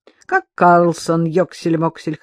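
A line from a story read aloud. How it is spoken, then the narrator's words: Chuckling. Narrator (Russian): хохотнул он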